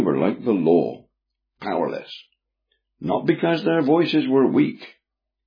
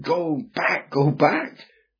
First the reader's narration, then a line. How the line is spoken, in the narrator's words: Still the men cried